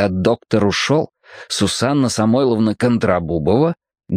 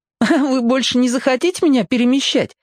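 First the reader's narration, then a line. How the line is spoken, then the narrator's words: Giggling. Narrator (Russian): хихикнул он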